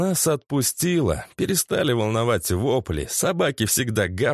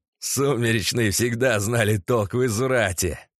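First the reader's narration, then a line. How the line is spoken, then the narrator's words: Laughing. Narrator (Russian): рассмеялся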